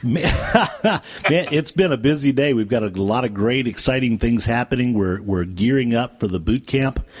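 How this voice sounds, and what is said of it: Polished, resonant radio announcer voice. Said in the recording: “that perfect radio voice ... this beautiful voice”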